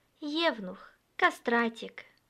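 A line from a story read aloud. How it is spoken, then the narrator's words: Whispering. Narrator (Russian): шептала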